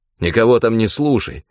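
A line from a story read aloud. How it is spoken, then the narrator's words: Guilty and angry. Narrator (Russian): виновато и зло говорил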